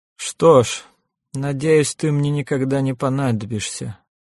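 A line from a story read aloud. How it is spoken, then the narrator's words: Gloomy parting words. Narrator (Russian): мрачно сказал Льер Бримс напоследок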